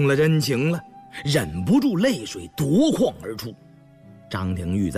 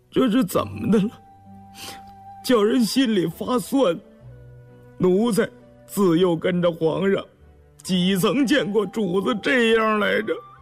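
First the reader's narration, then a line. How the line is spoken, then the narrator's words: Choked with emotion. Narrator (Chinese): 竟动了情，眼圈一红，哽咽着嗓子说道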